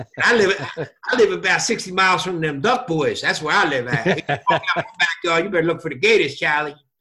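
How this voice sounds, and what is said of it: Noticeable regional accent. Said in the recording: “And you think I got an accent.”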